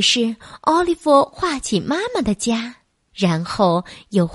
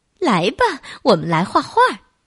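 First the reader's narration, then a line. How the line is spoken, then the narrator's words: Laughing. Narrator (Chinese): 贝贝小姐笑着说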